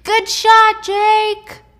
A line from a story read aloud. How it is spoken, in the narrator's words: from the stands, he hears behind him a voice screaming